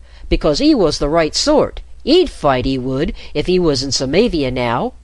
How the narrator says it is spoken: a voice called out

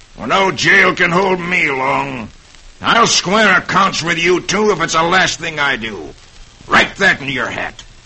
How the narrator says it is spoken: he snarls

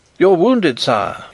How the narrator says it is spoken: he exclaimed

